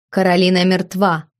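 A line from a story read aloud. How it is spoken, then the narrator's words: Cold. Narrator (Russian): холодно ответила ночная гостья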